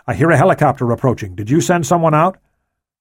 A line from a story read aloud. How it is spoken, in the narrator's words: he said quickly